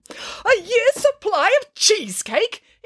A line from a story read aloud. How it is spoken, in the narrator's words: exclaimed Nanny Piggins